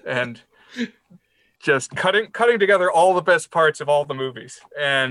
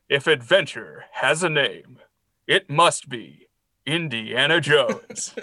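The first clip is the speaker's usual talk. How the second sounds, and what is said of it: Movie trailer narrator voice. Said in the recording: “You'd be a good trailer voice guy.”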